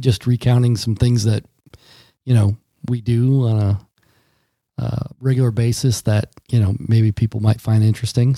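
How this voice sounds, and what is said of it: Weary, strained voice. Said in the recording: “my voice is a little uh, weary right now because I got this allergy cold”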